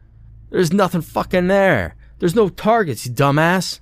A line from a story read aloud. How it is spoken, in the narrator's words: screamed